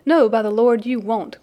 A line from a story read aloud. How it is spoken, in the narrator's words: cried Sandy